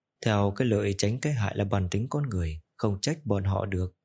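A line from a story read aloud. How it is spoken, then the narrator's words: Sighing after deep breath. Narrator (Vietnamese): Trình Hoan hít sâu một hơi, thở dài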